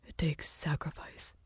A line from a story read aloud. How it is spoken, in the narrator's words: Lucas whispered